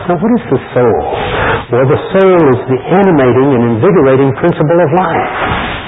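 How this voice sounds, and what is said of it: American accent. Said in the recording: “my American accent, you might not pick up the word I'm really saying”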